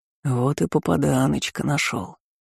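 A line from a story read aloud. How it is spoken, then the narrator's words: Hoarse male voice. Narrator (Russian): хрипло произнес он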